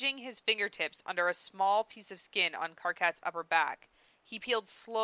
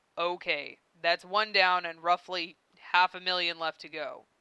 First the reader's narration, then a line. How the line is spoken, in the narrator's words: he said